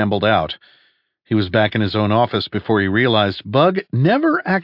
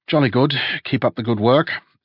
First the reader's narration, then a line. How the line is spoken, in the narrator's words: mumbled